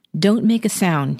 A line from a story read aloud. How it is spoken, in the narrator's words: he says